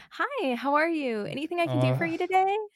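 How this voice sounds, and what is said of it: Higher-pitched customer service voice. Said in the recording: “I can like pitch it to the customer service voice”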